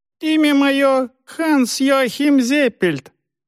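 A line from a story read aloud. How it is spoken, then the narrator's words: Squeaky high voice. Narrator (Russian): запищал колдун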